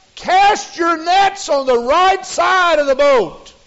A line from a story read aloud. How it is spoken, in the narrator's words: Jesus then called out and said